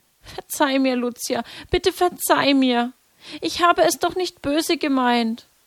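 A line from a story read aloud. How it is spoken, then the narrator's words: Tearful pleading. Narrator (German): begann auch Jacinta zu weinen, flehte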